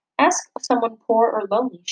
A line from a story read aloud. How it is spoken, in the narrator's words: she always said